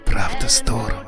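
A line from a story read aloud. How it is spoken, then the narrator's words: Whisper. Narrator (Russian): шепнул я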